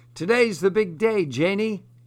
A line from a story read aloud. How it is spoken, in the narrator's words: the butcher called out